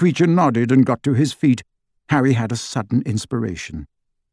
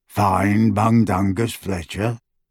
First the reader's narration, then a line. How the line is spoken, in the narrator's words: he croaked